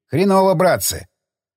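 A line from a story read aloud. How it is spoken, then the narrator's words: Grumbling. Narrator (Russian): проворчал Борис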